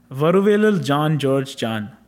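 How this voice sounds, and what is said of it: Put-on Indian accent. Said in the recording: “I'm going to do my Indian accent just so it sounds authentic”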